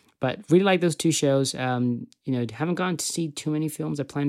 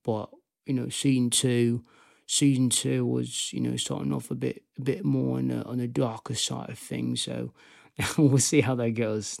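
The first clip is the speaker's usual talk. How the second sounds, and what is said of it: Put-on Birmingham English accent. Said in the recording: “That was my Peaky Blinders accent”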